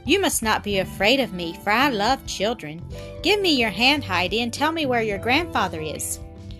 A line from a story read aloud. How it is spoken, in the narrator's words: As she appeared frightened, he said kindly